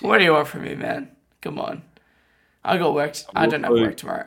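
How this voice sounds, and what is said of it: Strained, nearly lost voice. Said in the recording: “my voice is gone as well ... you aren't that loud, but your voice is gone”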